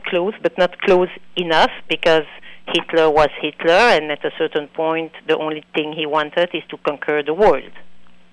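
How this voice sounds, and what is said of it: Belgian, non-American accent. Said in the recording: “It's obvious you are not from. You're not American ... I apologize for the accent. I was born and raised in Belgium”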